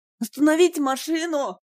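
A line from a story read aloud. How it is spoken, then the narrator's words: Yelled. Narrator (Russian): заорал Сергей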